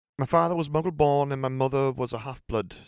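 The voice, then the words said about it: Put-on Middlesbrough (Boro) English accent. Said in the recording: “a lot closer to Yorkshire ... this is going to be a lot more like a Boro accent”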